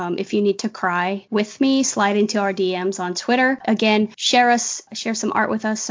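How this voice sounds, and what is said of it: Usual voice. Nothing is said of it.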